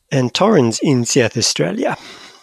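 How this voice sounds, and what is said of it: Put-on South African accent. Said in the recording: “Are you saying South Australia with a South African accent? ... Yeah”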